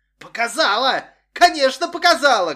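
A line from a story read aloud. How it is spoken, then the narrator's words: Shouting. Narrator (Russian): кричала Анна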